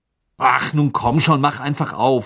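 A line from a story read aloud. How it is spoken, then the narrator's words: Angry. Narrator (German): sagte er wütend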